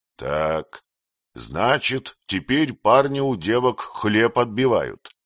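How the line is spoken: Through gritted teeth. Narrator (Russian): он процедил сквозь зубы

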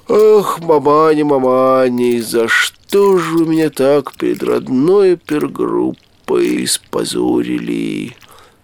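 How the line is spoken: Muttering through teeth. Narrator (Russian): Сквозь зубы бормотал наш добрый молодец

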